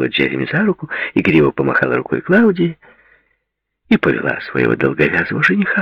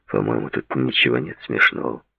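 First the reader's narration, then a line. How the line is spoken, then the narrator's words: Gloomy statement. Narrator (Russian): мрачно заявил Дэвид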